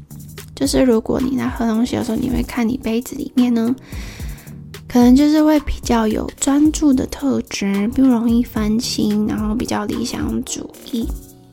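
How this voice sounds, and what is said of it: Hoarse, slightly quieter voice. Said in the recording (Chinese): “声音怎么怎么沙哑？对，我今天讲了很多话，那我小声一点点好了”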